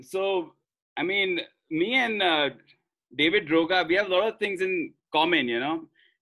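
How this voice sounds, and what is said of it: Indian English accent. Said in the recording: “my Indian accent”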